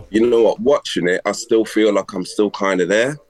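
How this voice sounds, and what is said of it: Congested voice from a cold. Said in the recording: “Sorry about my voice. I've got a cold”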